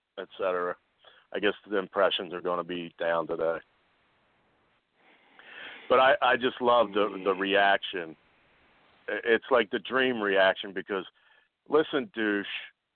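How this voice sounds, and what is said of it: Rough, strained voice. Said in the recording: “my voice is so effed up ... Got a little cold”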